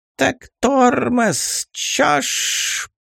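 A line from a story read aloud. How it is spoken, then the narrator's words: Spiteful hiss. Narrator (Russian): Подытожила злобным шипением фиалка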